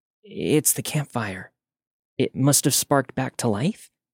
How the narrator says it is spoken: After a moment of shock, Katie whispered

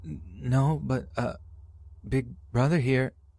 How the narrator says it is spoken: Wide-eyed, I managed to stutter out

